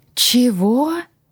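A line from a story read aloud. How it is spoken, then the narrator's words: Exclaimed in unison. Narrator (Russian): воскликнули мы вместе с моими кураторами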